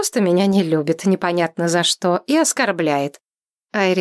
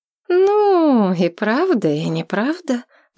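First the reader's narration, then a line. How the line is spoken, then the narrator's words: Drawn-out drawl. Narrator (Russian): протянула она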